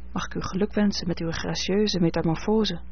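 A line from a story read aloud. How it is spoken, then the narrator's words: Whispered. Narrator (Dutch): fluister ik haar in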